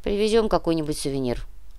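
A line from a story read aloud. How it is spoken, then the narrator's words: Gruff mutter. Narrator (Russian): буркнул Кортес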